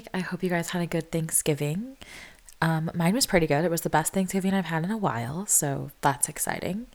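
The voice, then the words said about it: Sick, sniffly voice. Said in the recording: “I am sick, so sorry in advance for the sniffles... there's not a whole lot that I can do about how my voice sounds.”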